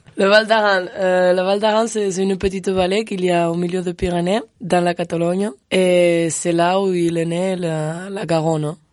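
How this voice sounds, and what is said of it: Charming regional accent from Val d'Aran. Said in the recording (French): “un petit accent charmant. Un petit accent ... qui nous vient d'où ... Du Val d'Aran”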